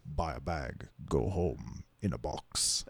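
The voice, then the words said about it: Dramatic horror trailer voiceover voice. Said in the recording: “the greatest horror movie trailer voiceover guy ... Can you give us a good impression”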